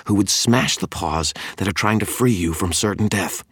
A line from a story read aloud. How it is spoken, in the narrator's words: Tara growled